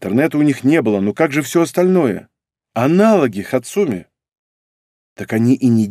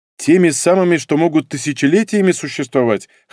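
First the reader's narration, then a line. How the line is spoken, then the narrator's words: Snorting. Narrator (Russian): хмыкнул я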